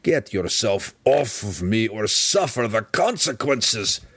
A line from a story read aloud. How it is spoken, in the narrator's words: the deep gnome growled